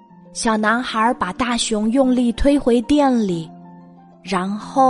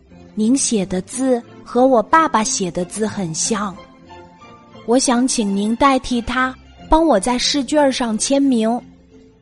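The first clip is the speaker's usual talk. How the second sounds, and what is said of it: Speaking even more quietly. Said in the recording (Chinese): “更小声的说”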